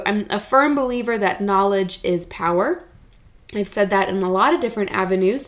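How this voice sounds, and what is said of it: Congested, slightly hoarse voice. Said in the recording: “the runny nose and the congestion and maybe some of the headaches um, the itchy eyes or the sore throat ... if you can't tell in my own voice i'm kind of recovering from some of that myself”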